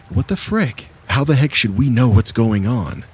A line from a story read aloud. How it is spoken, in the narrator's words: I exclaimed again